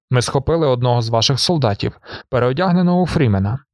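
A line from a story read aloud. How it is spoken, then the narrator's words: Plain. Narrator (Ukrainian): сказав барон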